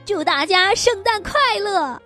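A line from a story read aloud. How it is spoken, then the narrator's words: Happy shout. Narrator (Chinese): 布子高兴地喊着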